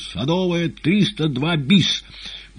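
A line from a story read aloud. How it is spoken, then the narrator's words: Short shout into phone. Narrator (Russian): коротко крикнув в трубку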